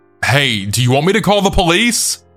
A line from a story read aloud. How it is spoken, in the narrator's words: I then shouted through the door